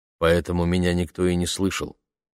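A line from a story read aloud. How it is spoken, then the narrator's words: Plain. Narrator (Russian): сказал он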